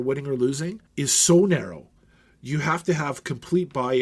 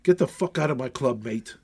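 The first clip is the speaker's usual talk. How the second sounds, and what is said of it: Poor put-on English accent. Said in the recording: “That stupid English voice ... it wasn't a good one”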